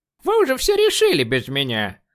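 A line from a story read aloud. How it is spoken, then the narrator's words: Scoffing snort. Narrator (Russian): фыркнула Бернадет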